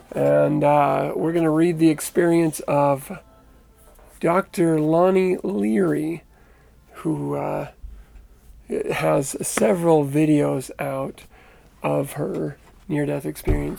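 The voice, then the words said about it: Hoarse, strained voice. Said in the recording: “recovering from a little laryngitis or whatever this is”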